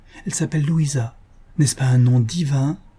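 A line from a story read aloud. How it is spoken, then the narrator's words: Impetuous young man, lovestruck. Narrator (French): s'écria le jeune homme dans le mouvement impétueux d'un jeune amour qui s'éveille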